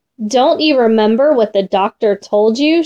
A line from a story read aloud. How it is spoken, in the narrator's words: she said